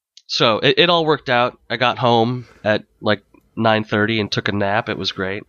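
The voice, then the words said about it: Voice still sounds sick. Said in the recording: “now you can probably hear it in my voice. I am in the process of recovery ... you can tell you're still not 100%”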